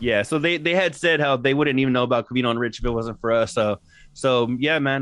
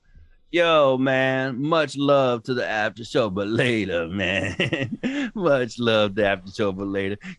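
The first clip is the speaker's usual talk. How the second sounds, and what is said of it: Imitates another person's voice. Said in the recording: “my impression of Tito”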